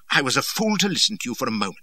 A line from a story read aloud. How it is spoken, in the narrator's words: says